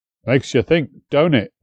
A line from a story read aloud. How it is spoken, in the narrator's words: Edward muttered after a moment